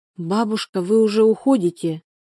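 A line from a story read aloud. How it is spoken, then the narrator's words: Plain question. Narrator (Russian): спросила ее девушка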